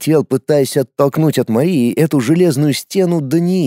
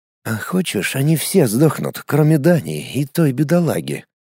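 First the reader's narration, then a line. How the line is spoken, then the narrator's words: Conspiratorial whisper. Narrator (Russian): Заговорчески продолжал шептать ей на ухо волк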